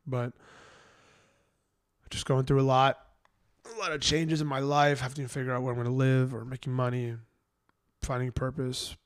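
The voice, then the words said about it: Raspy, congested voice. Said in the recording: “My voice is not a sad voice. It's just I'm raspy because I've been kind of sick and congested.”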